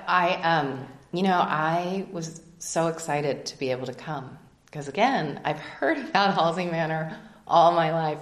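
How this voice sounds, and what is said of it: Choked-up, emotional voice. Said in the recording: “I'll get a little choked up.”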